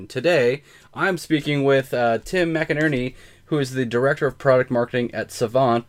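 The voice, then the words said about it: Slightly tired-sounding voice. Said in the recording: “If I sound a little tired ... So I'm a little tired”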